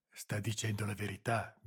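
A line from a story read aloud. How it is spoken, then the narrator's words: Whispering. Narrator (Italian): bisbigliò Boselli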